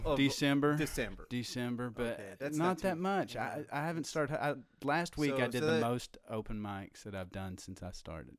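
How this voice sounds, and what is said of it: Appalachian accent. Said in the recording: “my accent. My accent... That Appalachian accent”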